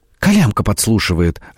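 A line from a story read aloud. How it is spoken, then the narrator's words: Exclaimed. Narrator (Russian): воскликнула Фрося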